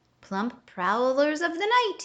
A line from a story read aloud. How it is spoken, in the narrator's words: yelled the sugar glider